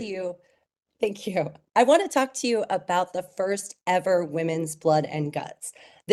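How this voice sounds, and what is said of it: Cracky voice, recovering from illness. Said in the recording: “apologize for my voice because I'm recovering from being sick. So it's a little cracky.”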